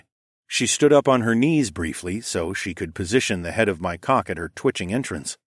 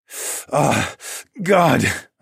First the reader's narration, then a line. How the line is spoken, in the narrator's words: I breathed through my lust